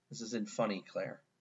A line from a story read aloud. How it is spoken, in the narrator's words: Jeffrey released a low growl of rage, muttering to himself